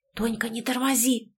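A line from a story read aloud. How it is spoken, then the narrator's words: Whisper. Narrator (Russian): шепнула ей подруга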